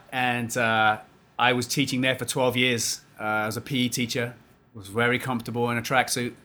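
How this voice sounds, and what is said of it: English London accent. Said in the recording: “as you can tell from my accent, I'm not from here. I'm originally from London, England.”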